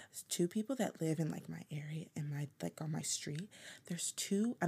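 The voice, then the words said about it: Whispering. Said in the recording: “I'm whispering like they can hear me”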